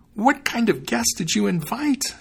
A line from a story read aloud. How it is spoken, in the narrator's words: she cried